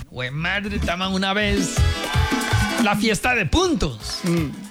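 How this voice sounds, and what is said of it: Regional Colombian accent. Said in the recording (Spanish): “acentos colombianos ... con el acento de mi tierra”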